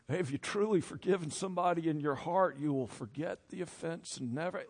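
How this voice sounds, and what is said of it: Mock preacher voice. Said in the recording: “I'm getting my preacher voice on”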